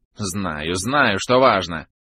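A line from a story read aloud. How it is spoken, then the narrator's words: Irritated curt retort. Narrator (Russian): раздраженно бросил собеседник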